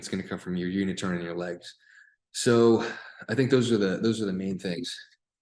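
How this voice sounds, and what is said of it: Voice starting to give out. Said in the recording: “I'm starting to lose my voice, guys. This is this is a physical thing to do. Talk to yourself for for 20 minutes straight.”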